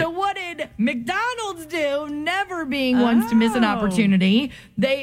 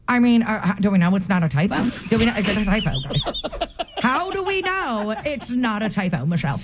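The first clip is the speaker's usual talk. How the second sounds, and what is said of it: Imitates another person's voice. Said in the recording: “do your impersonation of me ... Exactly like Lou Russo.”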